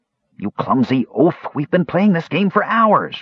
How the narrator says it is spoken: Raistlin snarled in anger

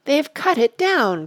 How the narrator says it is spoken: cried Sam

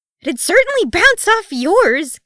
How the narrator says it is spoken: Keeley nearly shrieked

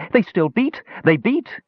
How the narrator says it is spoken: excitedly cried

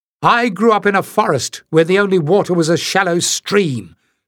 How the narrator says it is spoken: snapped, heartily sick of being criticized for something she could not help

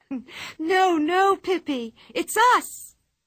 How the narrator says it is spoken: shrieked Anika

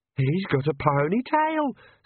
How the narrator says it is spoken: squeaked Perdita

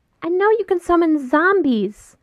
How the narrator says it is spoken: Ryan shouts

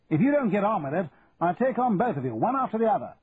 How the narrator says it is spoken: shouted Trenton

